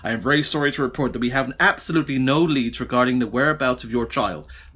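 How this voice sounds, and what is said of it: Put-on American accent. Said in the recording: “Lovely American accent.”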